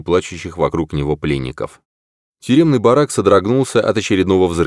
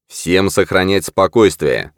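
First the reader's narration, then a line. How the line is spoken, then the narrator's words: Firm command. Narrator (Russian): скомандовал твердым голосом Сьюэл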